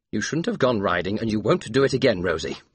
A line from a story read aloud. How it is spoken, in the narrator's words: he said firmly